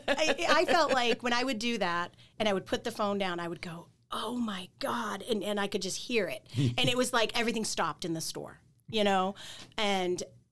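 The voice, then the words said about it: Mild Southern US accent. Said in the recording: “my accent is more prevalent now ... So my accent is, you know, it's back, but it's not in full force.”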